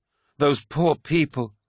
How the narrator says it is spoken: cried Mercedes, sinking to her knees

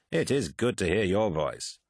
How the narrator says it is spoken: said Lucius, his voice full of amusement

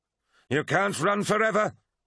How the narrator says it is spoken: roared Abaddon

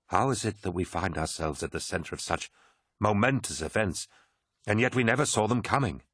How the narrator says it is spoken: he whispered

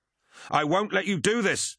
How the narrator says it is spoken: yelled Kassar, returning fire

